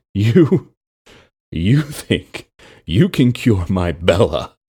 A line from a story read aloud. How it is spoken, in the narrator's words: Aaron wheezed through the laughter